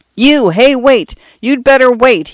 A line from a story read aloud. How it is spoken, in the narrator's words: he yelled